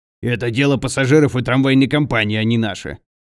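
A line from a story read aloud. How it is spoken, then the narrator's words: Grumbling heavy man. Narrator (Russian): пробурчал толстый инженер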